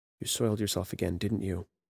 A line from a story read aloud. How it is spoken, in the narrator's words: whispered